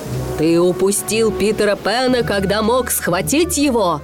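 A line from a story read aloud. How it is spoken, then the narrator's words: Shout. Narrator (Russian): он кричал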